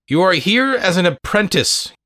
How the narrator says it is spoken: Granny said sharply

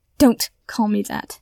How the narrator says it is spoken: snarls, glaring up through his tears

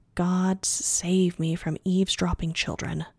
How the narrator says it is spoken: muttered

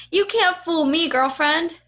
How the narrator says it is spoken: said Jenna

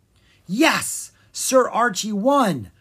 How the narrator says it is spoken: Prince Lucas shouted

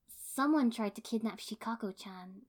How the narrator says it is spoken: Ino said grimly, not even attempting to break the ice gently

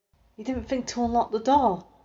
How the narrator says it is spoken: hissed

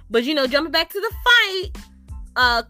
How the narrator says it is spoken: Chris shouts to Brandon

